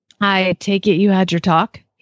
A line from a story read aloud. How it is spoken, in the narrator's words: he asked